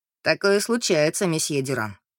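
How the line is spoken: Dry. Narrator (Russian): сухо проговорил Люк

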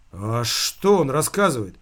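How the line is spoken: Frightened question. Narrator (Russian): испуганно спросил он

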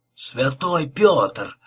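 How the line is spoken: Groaned. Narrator (Russian): простонал Пиннер

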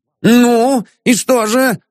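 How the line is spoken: Shouting. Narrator (Russian): закричал Ипполит Матвеевич

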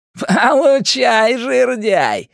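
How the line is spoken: Shouting while laughing. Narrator (Russian): Генри по-прежнему то ли кричал, то ли смеялся

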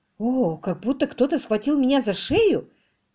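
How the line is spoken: Whisper. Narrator (Russian): прошептала мисс Климсон

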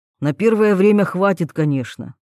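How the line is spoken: Wry snort. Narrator (Russian): хмыкнул гном

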